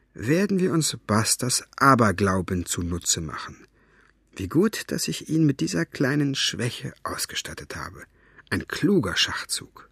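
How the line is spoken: Muttering. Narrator (German): murmelte er

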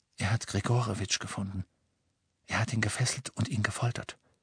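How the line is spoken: Whisper into darkness. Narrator (German): flüsterte er in die Dunkelheit

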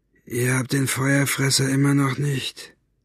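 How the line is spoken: Flat, toneless question. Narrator (German): fragte er tonlos

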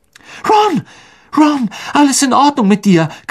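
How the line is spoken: Shriek. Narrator (German): kreischte Hermine

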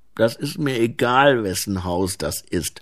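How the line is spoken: Tired, irritable grumbling. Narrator (German): maulte Ensel müde, ausgehungert und gereizt

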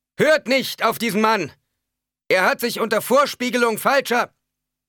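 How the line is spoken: Man shouting loudly. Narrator (German): rief der Mann laut aus

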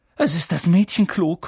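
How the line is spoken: Panting. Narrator (German): keuchte Harry

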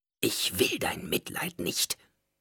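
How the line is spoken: Hissing woman. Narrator (German): zischte sie

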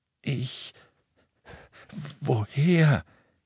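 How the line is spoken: Croaking, pleading. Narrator (German): krächzte Ollivander und blickte Ron und Hermine um Hilfe flehend an

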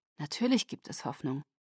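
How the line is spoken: Murmured. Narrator (German): murmelte

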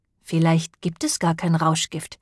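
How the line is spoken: Plain. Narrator (German): sagte Josh

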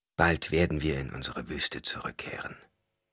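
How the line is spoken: Whispered. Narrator (German): wisperte

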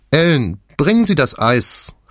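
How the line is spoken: Calling over shoulder. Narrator (German): rief sie über die Schulter

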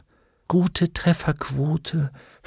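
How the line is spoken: Whisper against cheek. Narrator (German): flüsterte Hester an seiner Wange

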